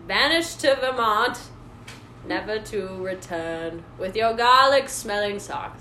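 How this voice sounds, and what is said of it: Put-on accent. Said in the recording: “That accent is familiar.”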